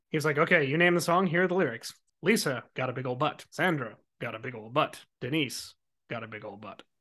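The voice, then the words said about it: Straight-laced newsreader voice. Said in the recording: “He is so straight-laced. ... Like Ted Koppel-esque. Right. Like he is here to deliver the news. ... is going to do his impression of that right now.”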